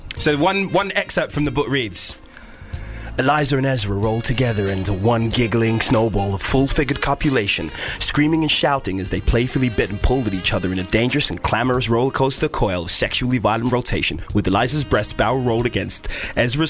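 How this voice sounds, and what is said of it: Porn-style seductive voice. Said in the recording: “Should I do it in a porny accent? ... A porny. A porny.”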